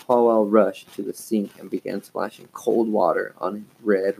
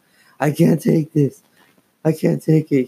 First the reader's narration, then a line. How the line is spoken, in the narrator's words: wailed